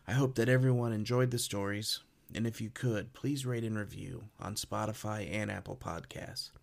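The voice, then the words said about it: Impaired, not-quite-normal speaking voice. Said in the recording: “apologize for my voice. ... I just all of a sudden couldn't speak properly.”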